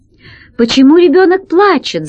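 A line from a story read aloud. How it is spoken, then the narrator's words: Shouting. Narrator (Russian): закричала она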